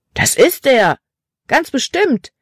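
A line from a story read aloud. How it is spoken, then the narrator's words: Boy calling out. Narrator (German): rief ein anderer Junge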